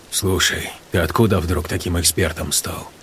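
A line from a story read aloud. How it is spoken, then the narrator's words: Grumbling. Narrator (Russian): Пробурчал он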